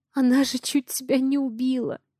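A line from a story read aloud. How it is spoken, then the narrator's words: Trembling voice. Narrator (Russian): Дрожащим голосом говорю я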